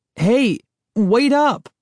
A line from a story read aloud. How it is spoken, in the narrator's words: I cried